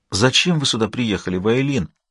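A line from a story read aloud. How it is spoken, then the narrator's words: Low-voiced question. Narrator (Russian): спросила она вполголоса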